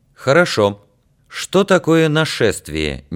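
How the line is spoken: Suddenly loud. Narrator (Russian): неожиданно для себя громко сказал Яр

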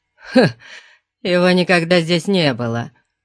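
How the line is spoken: Scornful snort. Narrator (Russian): фыркнул Дионус

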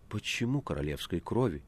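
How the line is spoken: Frightened whisper. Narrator (Russian): испуганно шепнула Маргарита

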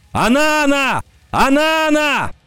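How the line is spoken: Shout, leaping up. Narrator (Russian): Вскочив на ноги, Кикаха закричал

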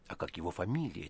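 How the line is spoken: Whispered in ear. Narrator (Russian): тихо спросили на ухо

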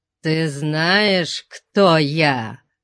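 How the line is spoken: Growling. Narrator (Russian): прорычал он

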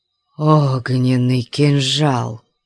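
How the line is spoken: Breathless exclamation. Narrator (Russian): выдохнул Кабат-Шах

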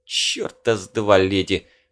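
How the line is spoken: Strained, forced out. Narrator (Russian): выдавил тот

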